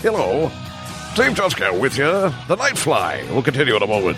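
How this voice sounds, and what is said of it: Imitates a radio DJ's voice. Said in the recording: “I love your voice, really ... he was on WABC for years ... that's the voice I've been imitating for my whole life ... I think you have a career in voiceover”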